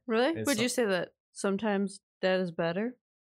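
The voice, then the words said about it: Imitates a movie character's voice. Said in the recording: “that stupid movie... that stupid impression”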